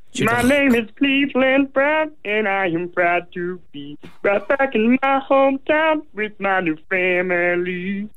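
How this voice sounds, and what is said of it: Imitates a cartoon character's voice. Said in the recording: “I can do the Cleveland Brown intro ... It's a cartoon character”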